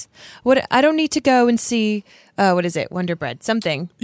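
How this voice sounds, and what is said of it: Put-on British accent, bitchy tone. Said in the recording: “Can you just keep doing the British accent for me? ... like all like bitchy, like Emily Blunt”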